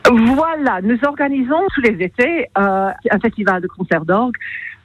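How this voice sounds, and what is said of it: English accent speaking French. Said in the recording (French): “votre joli petit accent anglais”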